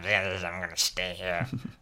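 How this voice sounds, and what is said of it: Old cartoon villain voice. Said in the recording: “That's how I imagine his voice sounds like. Like an old Power Rangers villain. ... Mixed with Stitch.”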